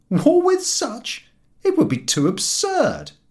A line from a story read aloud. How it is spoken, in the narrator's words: The public would laugh and exclaim